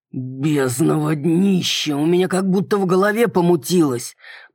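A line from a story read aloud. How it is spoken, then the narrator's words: Dragon's growl. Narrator (Russian): прорычал дракон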